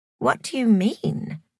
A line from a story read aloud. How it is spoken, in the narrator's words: faltered Joy